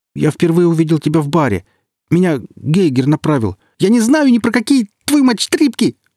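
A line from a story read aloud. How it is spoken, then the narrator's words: Shrieking. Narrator (Russian): завизжал Алексей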